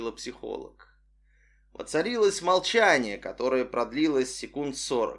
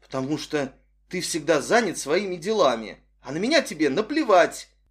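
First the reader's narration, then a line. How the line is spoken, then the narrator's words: Sudden angry reply. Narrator (Russian): Неожиданно зло ответила заместитель девушки Татьяна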